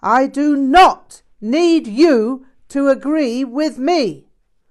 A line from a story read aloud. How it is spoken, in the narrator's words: Rinpoche yelled with great force